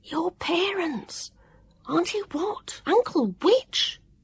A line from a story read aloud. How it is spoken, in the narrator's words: Vivian whispered